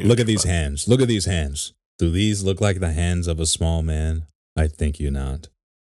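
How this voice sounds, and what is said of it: Imitates another person's voice. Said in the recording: “worst Trump impersonation”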